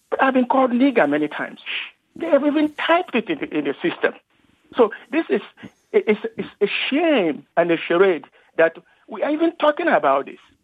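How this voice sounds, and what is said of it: West African accent. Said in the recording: “from your accent, sounds like you're a West African”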